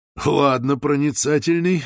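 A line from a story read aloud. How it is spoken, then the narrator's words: Laughing. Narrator (Russian): рассмеялся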